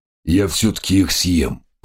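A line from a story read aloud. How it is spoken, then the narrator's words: Grumbling tiger. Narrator (Russian): проворчал тигр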